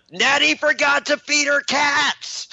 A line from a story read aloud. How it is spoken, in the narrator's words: I yell